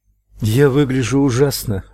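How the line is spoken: Breathy exhale. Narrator (Russian): выдохнула

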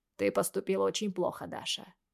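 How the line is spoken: Cold. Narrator (Russian): говорит холодно

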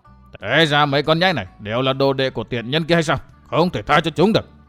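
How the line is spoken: Astonished muttering. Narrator (Vietnamese): Lão che mặt kinh ngạc vô cùng, miệng lẩm bẩm

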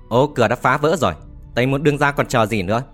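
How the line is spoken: Loud shout. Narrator (Vietnamese): lớn tiếng quát

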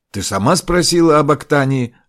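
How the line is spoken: Snapping. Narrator (Russian): огрызнулся Ракия

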